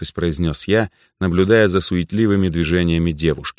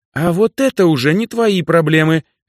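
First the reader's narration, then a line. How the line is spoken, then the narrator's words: Sharp and threatening. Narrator (Russian): резко произнесла она, с угрозой добавив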